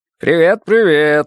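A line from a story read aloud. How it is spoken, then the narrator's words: Cheerful. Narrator (Russian): весело сказал Карлос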